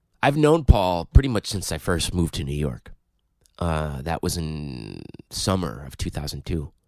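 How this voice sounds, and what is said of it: Sick-sounding voice. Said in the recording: “If you can't tell by my voice, I'm a little bit sick right now. So please forgive if my voice is a little more irritating than normal.”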